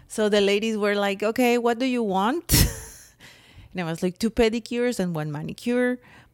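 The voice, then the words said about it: Mexican accent. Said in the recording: “What accent? It's my Mexican accent.”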